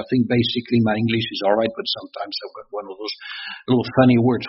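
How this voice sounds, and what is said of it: French-accented English. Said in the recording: “my French accent”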